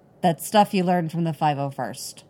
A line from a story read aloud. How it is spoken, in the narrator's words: he says stiffly